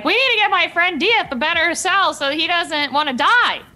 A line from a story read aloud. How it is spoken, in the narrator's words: yell, like talking to them